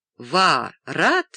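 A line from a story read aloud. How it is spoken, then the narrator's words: Exclaimed. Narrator (Russian): воскликнул Фон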